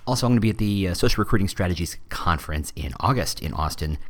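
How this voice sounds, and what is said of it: Tired, strained voice. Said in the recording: “I'm fresh off of RecruitCon yesterday, so my voice is still kind of catching up.”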